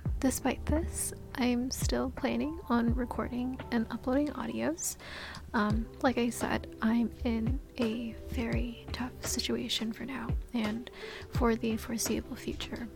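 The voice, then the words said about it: Lowered voice that keeps cracking. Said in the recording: “my voice is, I guess, like lower. And I'm sorry if it keeps on cracking. I have no idea what's up with my vocal cords today.”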